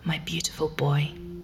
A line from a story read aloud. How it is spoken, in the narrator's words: whispers, crying